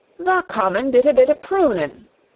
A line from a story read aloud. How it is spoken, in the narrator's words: cried Dickon